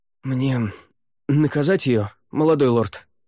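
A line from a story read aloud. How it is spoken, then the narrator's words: Hoarse question. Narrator (Russian): хрипло спросил Неррель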